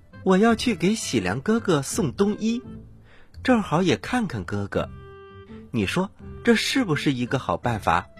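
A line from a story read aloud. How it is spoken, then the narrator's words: Plain. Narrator (Chinese): 孟姜女说着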